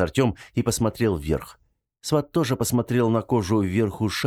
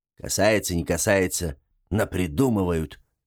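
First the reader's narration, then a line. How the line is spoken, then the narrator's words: Grumbling. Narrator (Russian): проворчал Гремлун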